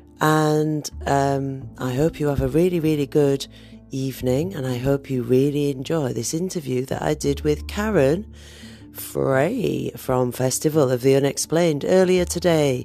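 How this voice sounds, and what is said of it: Hoarse, strained, failing voice. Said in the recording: “I am me with a very sore throat and I'm losing my voice... my voice is about to give up”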